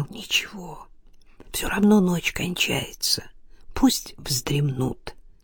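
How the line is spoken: Whisper. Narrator (Russian): Илья прошептал

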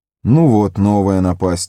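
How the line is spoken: Dejected voice. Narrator (Russian): упавшим голосом отозвался Фродо

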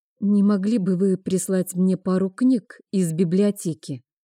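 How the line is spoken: Timid female request. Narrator (Russian): робко попросила она

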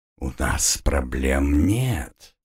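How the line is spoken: Male whisper in ear. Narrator (Russian): зашептал ей на ухо любовник

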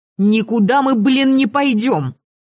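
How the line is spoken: Frenzied yelling, hoarse voice. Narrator (Russian): неистово орала я уже порядком севшим голосом

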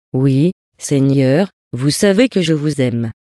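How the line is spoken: Timid. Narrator (French): Pierre lui répondit timidement

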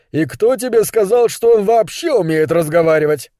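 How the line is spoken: Laughing. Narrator (Russian): Кэл засмеялся

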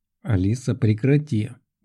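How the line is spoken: Silent mental snort. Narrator (Russian): мысленно фыркнул я на нее

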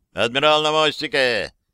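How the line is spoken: Shout. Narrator (Russian): крикнул первый капитан Гордон Уинсгейт, старший помощник на Куин Виктории

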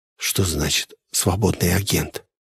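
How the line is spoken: Quiet question. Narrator (Russian): я тихо спросил

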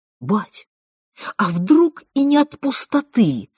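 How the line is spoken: Excited, eager interruption. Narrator (Russian): взволнованно и азартно перебил Сташек

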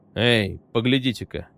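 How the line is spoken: Mumble. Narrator (Russian): пробормотал Холл

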